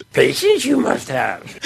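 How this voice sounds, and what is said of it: Yoda impression. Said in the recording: “This is all for the Yoda impression... Listen to this.”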